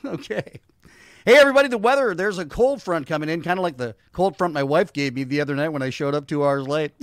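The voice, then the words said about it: Put-on comic weatherman character voice. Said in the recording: “What is that voice you're doing ... It's my new character, Sunny Skies Meteorologist, the new meteorologist on Baby News.”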